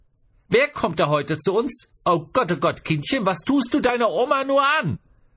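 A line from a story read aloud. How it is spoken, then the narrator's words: Exclaiming. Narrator (German): rief sie auch aus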